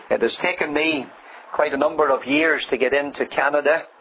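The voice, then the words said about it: Noticeable accent, unrefined English. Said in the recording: “You'll have to work around the accent. I'm not as refined as the Reverend Cranston. I murder the English language”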